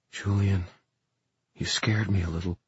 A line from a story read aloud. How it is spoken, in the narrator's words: Emma's voice whispered in his head